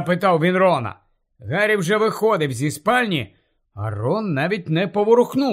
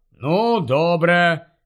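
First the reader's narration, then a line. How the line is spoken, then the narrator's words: Sighing. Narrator (Ukrainian): зітхнув Рон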